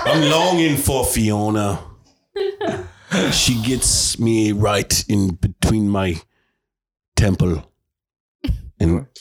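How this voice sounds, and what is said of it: Shrek character voice. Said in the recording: “your best impression of Shrek”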